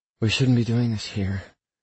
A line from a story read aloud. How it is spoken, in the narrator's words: she says breathlessly